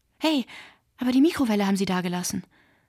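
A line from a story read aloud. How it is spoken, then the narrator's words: Call. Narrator (German): rief Aton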